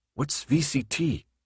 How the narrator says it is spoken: Thomas whispered to Minho

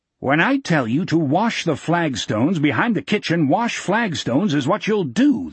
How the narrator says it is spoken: the captain said loudly

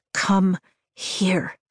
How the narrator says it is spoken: I whisper

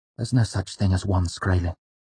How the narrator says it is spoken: Bast said flatly

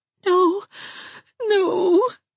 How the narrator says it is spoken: whimpered Dubby

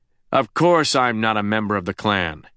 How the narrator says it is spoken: Truman barked

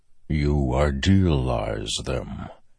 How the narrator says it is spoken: said a distant voice in his head, like rumbling thunder

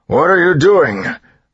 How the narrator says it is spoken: Straff bellowed, fear giving him strength

